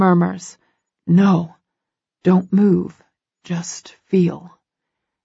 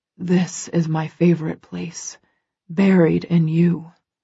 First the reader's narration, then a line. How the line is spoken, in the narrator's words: he murmurs against my skin